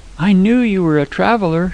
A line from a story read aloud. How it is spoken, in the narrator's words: she cried, clapping her hands